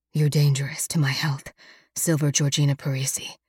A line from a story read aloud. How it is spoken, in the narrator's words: Alex whispers against my throat